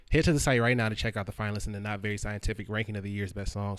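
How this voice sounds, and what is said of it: Speaks very fast. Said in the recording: “I say that very fast, but it's kind of hard to say slow, so I try to get it out as quickly as I can.”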